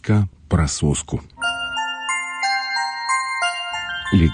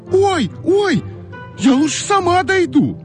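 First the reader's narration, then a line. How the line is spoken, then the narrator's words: Sudden scream. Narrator (Russian): Да как закричит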